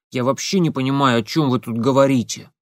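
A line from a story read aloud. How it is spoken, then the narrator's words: Grumbled. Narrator (Russian): пробурчал Семен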